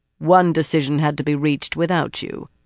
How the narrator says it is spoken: Tian said in a flat voice

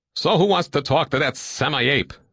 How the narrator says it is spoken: Sal said bitterly

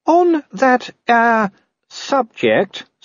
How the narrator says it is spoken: said Sybil, a little more hesitantly

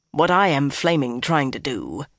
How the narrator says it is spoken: he growled

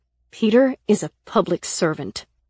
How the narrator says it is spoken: I said angrily

